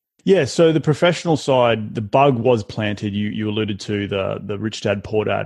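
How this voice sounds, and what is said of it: Non-American accent. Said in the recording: “obviously everyone can hear your accent. You're not from America.”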